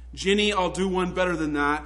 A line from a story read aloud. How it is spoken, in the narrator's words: she said